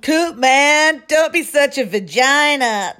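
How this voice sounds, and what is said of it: Put-on Southern California accent. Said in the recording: “They've like got like a SoCal accent... it is very SoCal.”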